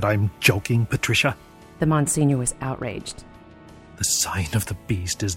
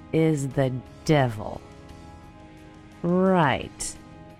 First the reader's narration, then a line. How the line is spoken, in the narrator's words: I said slowly